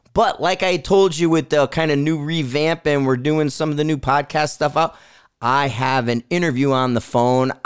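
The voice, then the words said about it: Hoarse voice, still recovering. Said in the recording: “my voice is just starting to come back from this past weekend”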